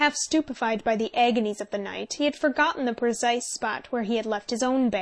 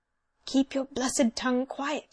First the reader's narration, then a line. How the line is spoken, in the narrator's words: he whispered